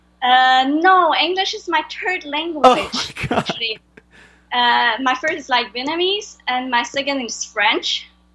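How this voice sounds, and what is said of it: Heavy French accent. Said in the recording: “I have a big accent because my English is not my first language ... I have a really heavy French accent”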